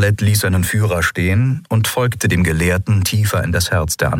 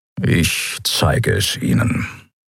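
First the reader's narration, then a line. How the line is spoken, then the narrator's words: Grumbled. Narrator (German): brummte er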